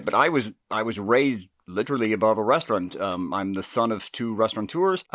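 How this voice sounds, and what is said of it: Southern US drawl. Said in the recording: “accent, very southern, I've got that drawl”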